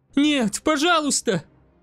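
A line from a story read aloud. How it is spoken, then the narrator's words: Desperate cry. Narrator (Russian): В отчаянии вскрикнула девушка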